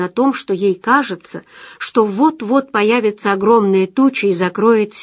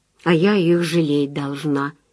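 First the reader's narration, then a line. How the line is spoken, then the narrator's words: Muttering. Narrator (Russian): пробормотала Анна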